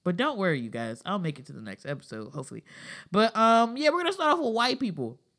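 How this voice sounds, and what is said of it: Sounds sick. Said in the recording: “if I sound sick, I am. If you hear me dying in the background, I am.”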